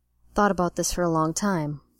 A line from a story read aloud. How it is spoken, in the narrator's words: Jim murmured against Bones' lips